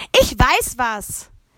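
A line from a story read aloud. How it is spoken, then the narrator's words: Calling out. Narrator (German): rief Paula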